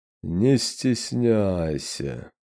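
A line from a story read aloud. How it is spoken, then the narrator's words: Slow singsong. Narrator (Russian): медленно нараспев посоветовал шусуах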